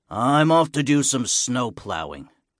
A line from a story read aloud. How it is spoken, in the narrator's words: grumbles Big Lou